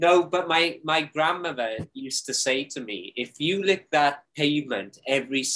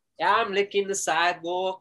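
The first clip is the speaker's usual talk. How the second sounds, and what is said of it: Put-on accent. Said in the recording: “Is that my good accent, coach?”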